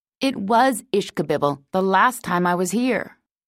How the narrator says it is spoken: he said

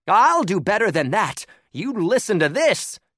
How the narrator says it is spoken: called out

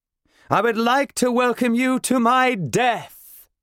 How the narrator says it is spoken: I shout

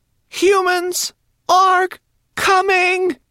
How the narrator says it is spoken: cried

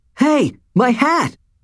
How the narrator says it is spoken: yelled

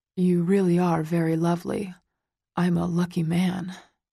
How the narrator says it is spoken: he murmurs

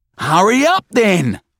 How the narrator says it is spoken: Marv roars back at him

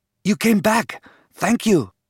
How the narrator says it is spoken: breathed

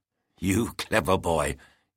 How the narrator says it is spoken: he lisped

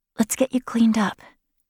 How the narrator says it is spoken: whispered

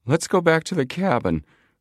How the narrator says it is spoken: urged plump Chet Morton nervously

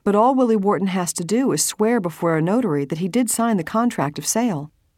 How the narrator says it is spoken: She said evenly

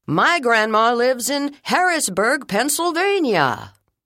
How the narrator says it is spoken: Ben said loudly

